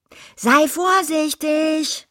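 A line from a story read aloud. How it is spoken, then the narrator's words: Called after. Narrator (German): rief sie ihm nach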